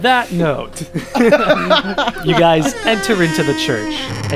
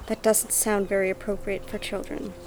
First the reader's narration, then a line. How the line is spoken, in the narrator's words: Bree just whispers